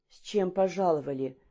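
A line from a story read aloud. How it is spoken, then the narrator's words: Sudden hoarse question. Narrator (Russian): спросила вдруг охрипшим голосом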